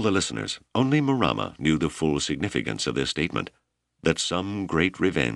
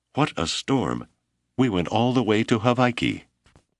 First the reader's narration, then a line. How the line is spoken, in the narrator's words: Mato cried